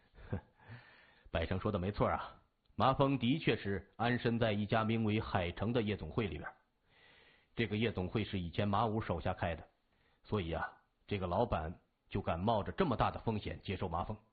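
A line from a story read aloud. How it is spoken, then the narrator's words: Chuckling. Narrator (Chinese): 刘波听了以后呵呵一笑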